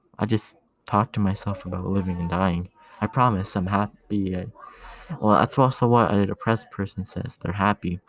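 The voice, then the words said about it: Low, tired, grumpy-sounding voice. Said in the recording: “my voice sounds sort of pissy right now ... Normally I'd be talking like happy, but today's just been tiring, so I'm doing a low voice.”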